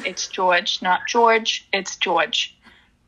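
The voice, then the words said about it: Put-on New Jersey accent. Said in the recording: “you have to say it in a New Jersey accent.”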